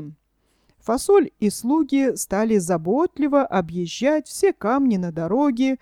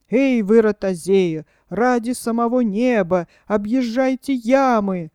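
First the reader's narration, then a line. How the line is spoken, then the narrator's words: Pleading. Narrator (Russian): взмолился барон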